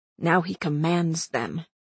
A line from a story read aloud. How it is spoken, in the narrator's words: Nox whispered